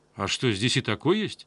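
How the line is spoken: Plain. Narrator (Russian): спросил я

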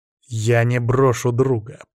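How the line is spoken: Through clenched teeth. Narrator (Russian): процедил сквозь стиснутые зубы

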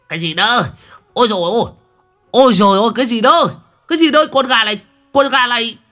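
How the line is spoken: Panicked shriek. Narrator (Vietnamese): Đồng Còi bị gà đá cho tối tăm mặt mũi, rú lên

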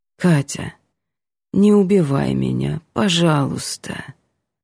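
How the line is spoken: Tired, quiet pleading. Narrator (Russian): просит устало и тихо, и очень по-человечески

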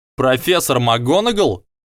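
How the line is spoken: Exclaimed. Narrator (Russian): воскликнул Драко

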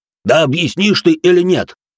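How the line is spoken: Roaring brute. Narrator (Russian): взревел громила

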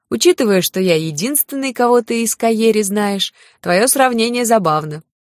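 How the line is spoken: Short laugh. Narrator (Russian): коротко хохотнул Лин

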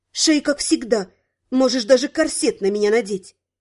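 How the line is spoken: Extremely confident. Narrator (Russian): сказать, причем предельно уверенным голосом

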